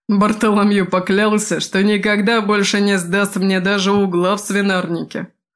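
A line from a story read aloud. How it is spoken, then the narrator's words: Short guffaw. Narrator (Russian): хохотнул Прохвост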